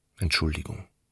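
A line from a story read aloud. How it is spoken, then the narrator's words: Soft-spoken. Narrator (German): sagte er leise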